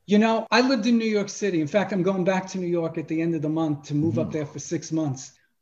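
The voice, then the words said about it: Slight Brooklyn accent. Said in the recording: “I'm from Brooklyn. If you can hear the accent, it's there. ... Just a little bit, yeah. ... Just slightly.”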